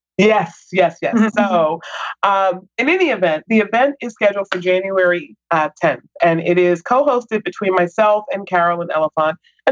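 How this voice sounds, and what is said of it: Voice affected by illness. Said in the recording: “apologize for my voice... it's caught me with a little bug”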